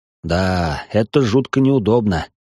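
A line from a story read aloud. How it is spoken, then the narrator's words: Sigh. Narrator (Russian): вздохнул старший квартала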